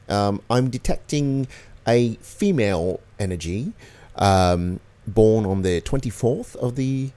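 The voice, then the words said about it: Strange, almost Australian affected voice. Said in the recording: “a good impression of him ... It was a great impression of him, actually. ... It's almost Australian. ... it's a very strange dialect ... It's definitely an affect that he's putting on.”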